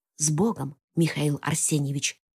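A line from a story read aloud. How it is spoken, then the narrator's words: Whispered. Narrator (Russian): шепнул возница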